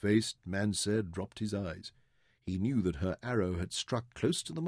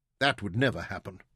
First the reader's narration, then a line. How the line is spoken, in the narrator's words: Mansair said hotly